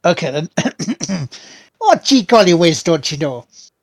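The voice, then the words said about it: Put-on Midwestern or Canadian accent. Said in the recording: “Are you trying to do like a Midwestern, like Minnesotian? ... Like a shitty Canadian.”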